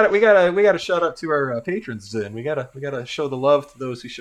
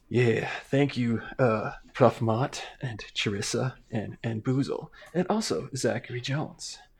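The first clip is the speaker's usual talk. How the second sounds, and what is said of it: Put-on sexy voice. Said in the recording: “let me get my sexy voice on”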